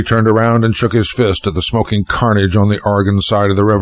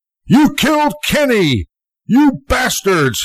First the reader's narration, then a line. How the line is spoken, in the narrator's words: he yelled